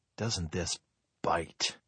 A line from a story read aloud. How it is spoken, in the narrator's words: George said in a low voice